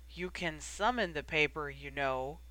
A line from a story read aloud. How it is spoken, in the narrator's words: Remus croaked after him